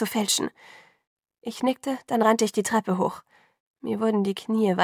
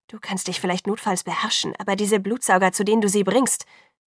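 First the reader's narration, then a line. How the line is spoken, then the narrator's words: Angry scolding. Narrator (German): beschimpfte Jacob sie wütend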